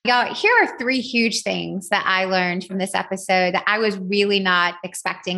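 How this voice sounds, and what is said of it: Southern American accent. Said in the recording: “my Southern accent ... You redneck”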